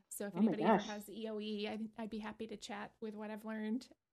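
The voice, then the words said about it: Hoarse, scratchy voice cutting in and out. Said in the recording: “her voice goes out ... It just sounds like this at the end of the day ... I sound like I've had, you know, throat cancer for about 50 years. And you can hear it, like it kind of scratches in and out right now, but that's from one of the medications”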